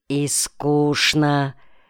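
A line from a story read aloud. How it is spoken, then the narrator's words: Quiet voice from afar. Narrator (Russian): произносил кто-то негромким голосом из задних рядов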